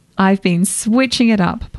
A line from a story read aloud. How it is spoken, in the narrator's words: Posey said, laughing